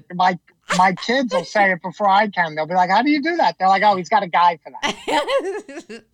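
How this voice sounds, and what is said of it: Long Island New York accent. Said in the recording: “In your Long Island accent”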